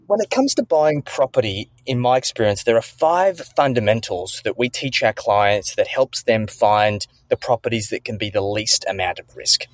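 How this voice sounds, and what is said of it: Australian accent. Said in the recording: “I just am like infatuated with the accent. ... my Australian slang.”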